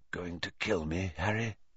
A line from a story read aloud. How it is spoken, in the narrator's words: he whispered